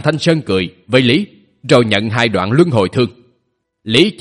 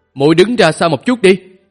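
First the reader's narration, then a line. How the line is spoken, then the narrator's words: Raised voice. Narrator (Vietnamese): Thanh Sơn cao giọng nói với nàng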